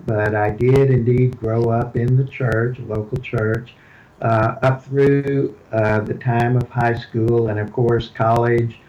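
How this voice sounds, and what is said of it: Houston Texas accent. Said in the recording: “I was born and raised in Houston. You can tell that by my accent.”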